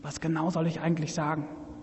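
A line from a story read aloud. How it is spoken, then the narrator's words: Whispered from mouth's corner. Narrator (German): flüsterte ihr aus dem Mundwinkel zu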